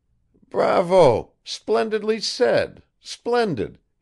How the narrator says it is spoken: he exclaimed

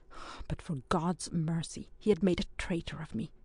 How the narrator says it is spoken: he said in a suffocated voice

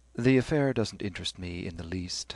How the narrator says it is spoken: said Stephen wearily

